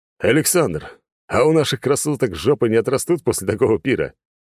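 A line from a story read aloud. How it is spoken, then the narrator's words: Loud laughing. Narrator (Russian): громко хохотал принц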